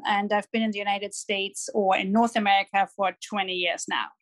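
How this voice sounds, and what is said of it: German accent. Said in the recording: “I'm born and raised in Germany. That's where the accent is from.”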